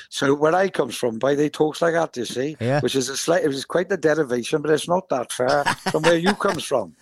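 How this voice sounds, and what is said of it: Pembrokeshire Welsh accent. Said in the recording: “If you listen to the Tenby accent ... that's a Pembrokeshire accent, boy ... It's not actually that far off Cornwall”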